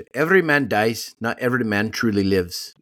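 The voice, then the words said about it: Put-on Scottish accent. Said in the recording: “my Scottish accent.”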